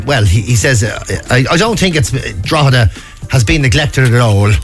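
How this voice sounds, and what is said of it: Put-on local Irish accent. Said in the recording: “I don't know why that accent came into me there now”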